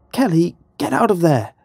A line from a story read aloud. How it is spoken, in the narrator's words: Sarah cried out